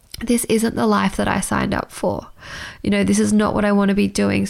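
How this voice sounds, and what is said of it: Emotional, tearful voice. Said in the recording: “getting emotional”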